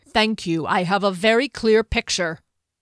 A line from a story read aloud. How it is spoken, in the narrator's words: Derry snapped